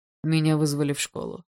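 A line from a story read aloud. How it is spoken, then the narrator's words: Calm old man. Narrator (Russian): спокойно сказал старик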